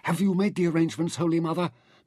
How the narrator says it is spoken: Mintaka demanded eagerly

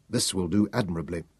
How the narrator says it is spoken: Tanos muttered

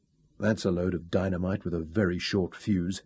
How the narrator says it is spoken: he murmured

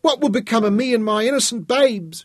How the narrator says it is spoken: whined as her mood changed

